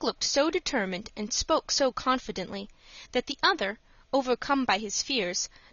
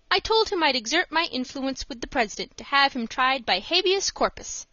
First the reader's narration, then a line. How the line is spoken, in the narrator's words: said Dick